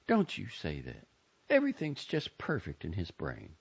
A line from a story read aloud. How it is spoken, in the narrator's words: Joni said sharply